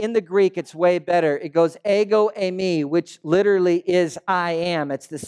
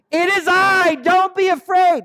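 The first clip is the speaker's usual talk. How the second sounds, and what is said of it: Shouted line. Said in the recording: “He's not whispering, right? He's screaming.”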